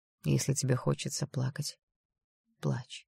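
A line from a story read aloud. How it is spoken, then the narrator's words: Whispered. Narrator (Russian): прошептал Даррел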